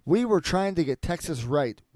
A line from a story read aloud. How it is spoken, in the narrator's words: West says